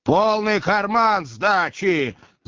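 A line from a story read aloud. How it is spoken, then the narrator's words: Yelled. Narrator (Russian): заорал шофер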